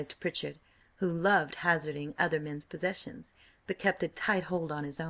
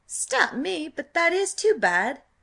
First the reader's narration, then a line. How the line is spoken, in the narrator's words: cried Wilding